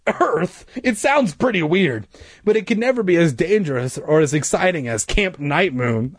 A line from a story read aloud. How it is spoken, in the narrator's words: I exclaimed